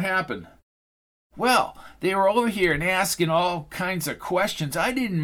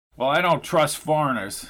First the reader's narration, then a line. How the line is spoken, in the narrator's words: said John